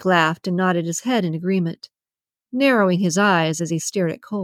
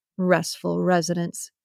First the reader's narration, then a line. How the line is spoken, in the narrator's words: he mumbled